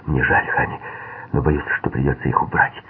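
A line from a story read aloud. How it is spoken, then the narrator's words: Whisper. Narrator (Russian): он прошептал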